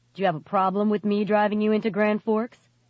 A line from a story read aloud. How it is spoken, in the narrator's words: he asked stiffly